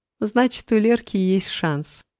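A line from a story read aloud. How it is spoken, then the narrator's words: Laughing. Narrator (Russian): засмеялась Мила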